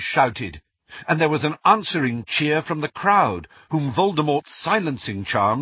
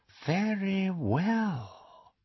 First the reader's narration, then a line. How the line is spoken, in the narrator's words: said Voldemort, and Harry heard more danger in the silkiness of his voice